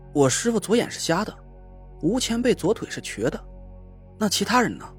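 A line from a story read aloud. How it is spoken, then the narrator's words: Plain. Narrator (Chinese): 吴桐说道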